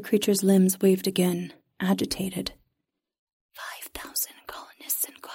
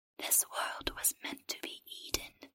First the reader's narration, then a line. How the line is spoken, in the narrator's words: the creature whispered